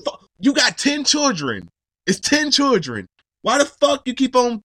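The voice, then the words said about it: Angry yelling. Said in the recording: “I'm yelling, ... Why I gotta get my yelling out?”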